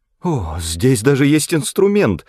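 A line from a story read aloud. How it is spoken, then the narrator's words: Exclaimed. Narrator (Russian): воскликнула Брике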